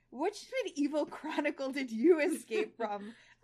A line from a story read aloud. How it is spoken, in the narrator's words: I giggle